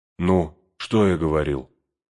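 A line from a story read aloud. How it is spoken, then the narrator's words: Tired. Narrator (Russian): сказал Сэм Пину, устало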